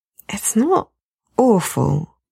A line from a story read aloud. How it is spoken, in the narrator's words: Matt says slowly